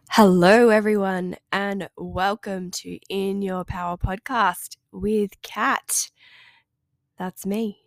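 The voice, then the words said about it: Nasal, congested voice. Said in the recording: “I'm just recovering from a cold... You might be able to hear that in my voice, my little nasally, sinusy voice.”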